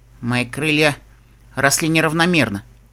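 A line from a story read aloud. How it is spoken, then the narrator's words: Muttered reply. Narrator (Russian): буркнула та в ответ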